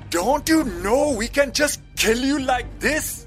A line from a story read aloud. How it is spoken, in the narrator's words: one man shouted